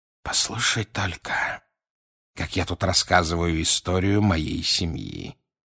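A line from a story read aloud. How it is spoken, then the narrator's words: Quiet remark. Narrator (Russian): тихо заметил он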